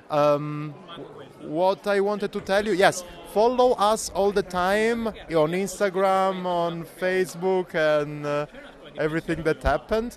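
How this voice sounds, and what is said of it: Italian accent. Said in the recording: “as Italian with my Italian accent”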